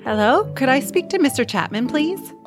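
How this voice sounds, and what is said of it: Put-on phone persona voice. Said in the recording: “She put on her best Lisette voice.”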